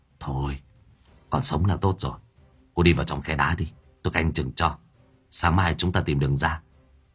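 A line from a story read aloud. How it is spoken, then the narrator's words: Whispering. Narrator (Vietnamese): Hải Nghẹo bây giờ mới thì thào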